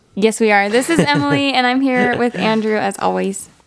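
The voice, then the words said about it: Scratchy, hoarse voice. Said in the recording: “my voice feels very scratchy ... my voice is just very scratchy today ... we had to, like, yell so people could hear us”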